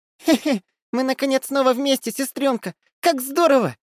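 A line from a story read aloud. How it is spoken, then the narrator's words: Squeaky little voice. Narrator (Russian): Пропищало это чудо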